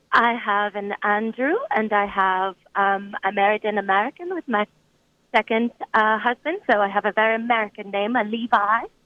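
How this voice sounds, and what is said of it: French accent, possibly fake. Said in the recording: “this accent is fake ... her Frenchness”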